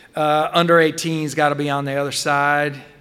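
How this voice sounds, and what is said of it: Texan accent. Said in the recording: “he said in a Texan accent.”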